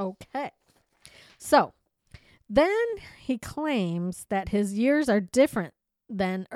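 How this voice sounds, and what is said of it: Usual voice. Nothing is said of it.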